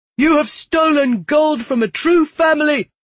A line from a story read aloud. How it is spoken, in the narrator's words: shouted